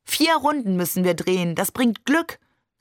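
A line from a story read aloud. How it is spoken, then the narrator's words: Beaming call. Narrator (German): rief uns nur strahlend zu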